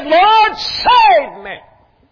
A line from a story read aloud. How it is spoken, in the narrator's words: cried and said